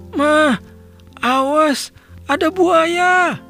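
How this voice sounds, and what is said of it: Shouted child character line. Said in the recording (Indonesian): “teriak”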